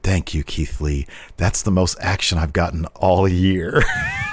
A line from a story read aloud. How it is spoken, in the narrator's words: she whispered